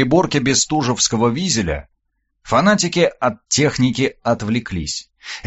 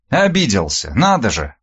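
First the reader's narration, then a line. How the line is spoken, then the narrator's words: Snorting, scornful. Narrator (Russian): Девушка фыркнула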